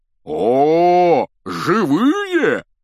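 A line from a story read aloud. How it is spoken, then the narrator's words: Exclaimed. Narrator (Russian): воскликнул сэр Патрик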